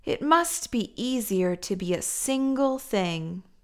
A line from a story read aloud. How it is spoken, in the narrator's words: Spork sighed and thought